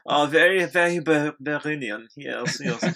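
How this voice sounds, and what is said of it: Bad put-on German accent. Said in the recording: “Shout out to Germans. I do a horrible accent.”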